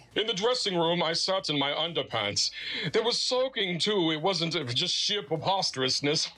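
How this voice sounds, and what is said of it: Put-on British accent. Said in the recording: “And a British accent.”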